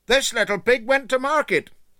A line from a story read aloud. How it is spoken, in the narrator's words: shouted little Tom Pig gaily